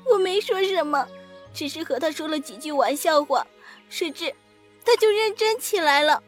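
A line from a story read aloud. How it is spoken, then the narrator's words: Crying. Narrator (Chinese): 紫娟哭着说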